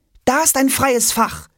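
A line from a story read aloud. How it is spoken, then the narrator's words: Call. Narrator (German): ruft Jonas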